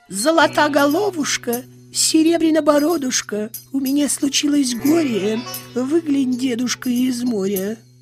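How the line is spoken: Thin singing voice. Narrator (Russian): тонким голосом поет

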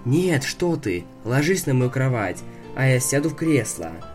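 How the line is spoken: Sleepy voice. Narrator (Russian): сонным голосом сказал

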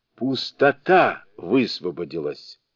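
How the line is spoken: Involuntary exclamation. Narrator (Russian): Великий мудрец не удержался и воскликнул

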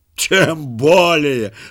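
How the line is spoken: Wild gleeful laugh, robber. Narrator (Russian): захохотал с дикой радостью разбойник и добавил

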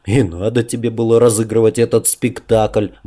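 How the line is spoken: Grumble. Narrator (Russian): бурчал я

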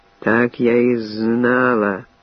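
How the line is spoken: Hissing from behind. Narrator (Russian): зашипела сзади

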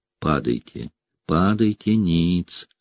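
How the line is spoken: Whispered. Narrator (Russian): шептал я

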